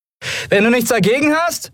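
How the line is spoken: Call. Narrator (German): rief Endriel und spuckte Staub

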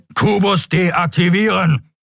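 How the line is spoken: Thundering voice. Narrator (German): donnerte der schwarze Skria

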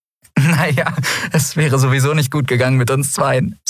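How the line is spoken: Laughing. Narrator (German): sagte sie lachend

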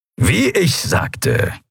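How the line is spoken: Satisfied grumble. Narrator (German): brummte der Skria hörbar zufrieden

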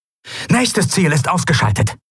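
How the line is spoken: Calling out. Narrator (German): rief Quailoa

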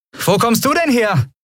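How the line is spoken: Called out. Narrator (German): rief Endriel

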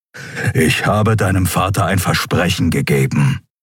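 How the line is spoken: Growling. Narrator (German): knurrte er

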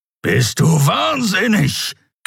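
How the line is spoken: Growled. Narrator (German): knurrte der Skrier

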